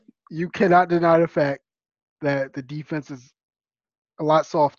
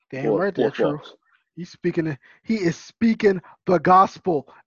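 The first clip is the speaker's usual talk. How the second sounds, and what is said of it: Imitates another person's voice. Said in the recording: “in my Kendrick Perkins voice”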